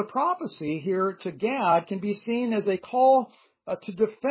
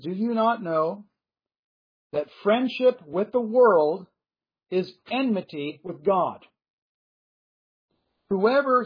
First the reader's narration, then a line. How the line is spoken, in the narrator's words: says